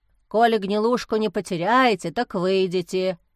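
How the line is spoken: Grumbling. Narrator (Russian): проворчал Пафнутий

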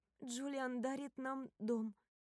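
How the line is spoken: Slow, deliberate. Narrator (Russian): медленно говорю я, чтобы мы оба могли переварить эту новость

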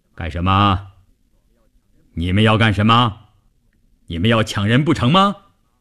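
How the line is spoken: Booming, explosive voice. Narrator (Chinese): 一个大块头，一开口声音炸得人头皮都发麻

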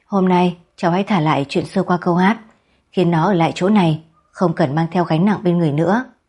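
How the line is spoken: Old man, faint smile. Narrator (Vietnamese): ông cụ đó chỉ mỉm cười nhàn nhạt nói

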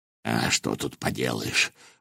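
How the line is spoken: Sighing. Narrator (Russian): вздохнул Волох

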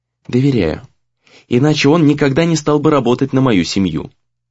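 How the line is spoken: Calm. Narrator (Russian): ответила она спокойно

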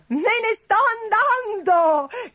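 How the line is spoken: Shout with triumphant laughter. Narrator (Italian): gridò con una selvaggia risata di trionfo

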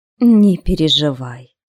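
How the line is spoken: Calm. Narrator (Russian): спокойно сказал Уорд

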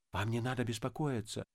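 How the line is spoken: Whispered. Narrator (Russian): зашептал Полесов

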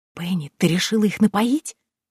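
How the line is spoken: Whispered. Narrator (Russian): прошептала Дейзи

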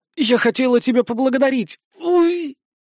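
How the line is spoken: Pained groan. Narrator (Russian): Медея застонала от боли

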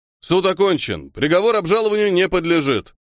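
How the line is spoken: Loud shout, very fat judge. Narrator (Russian): громко выкрикнул невероятно толстый судья

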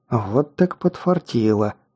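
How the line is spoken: Muttered. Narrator (Russian): пробормотала Инги

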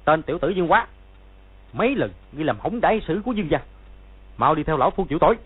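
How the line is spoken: Shouted. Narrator (Vietnamese): quát

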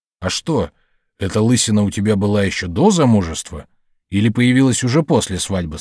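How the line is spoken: Plain. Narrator (Russian): спросил хозяин

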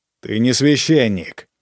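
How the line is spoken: Growling. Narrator (Russian): зарычала я, именно зарычала

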